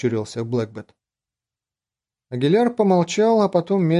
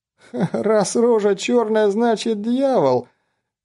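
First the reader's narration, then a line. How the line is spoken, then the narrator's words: Squeezed out between laughter. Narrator (Russian): выдавил он в перерыве между приступами смеха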